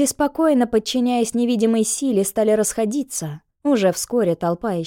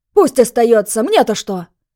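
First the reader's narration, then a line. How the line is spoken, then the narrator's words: Shout from crowd. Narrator (Russian): Кто-то крикнул в толпе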